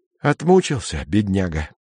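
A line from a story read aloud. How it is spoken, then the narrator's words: Hoarse. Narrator (Russian): сказал Стась хрипло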